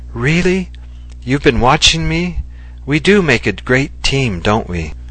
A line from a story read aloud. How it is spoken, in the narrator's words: Cowardy laughed and said